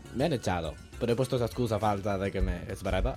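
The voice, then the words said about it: Spanish with a put-on Italian accent. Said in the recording (Spanish): “¿por qué tienes acento de italiano?”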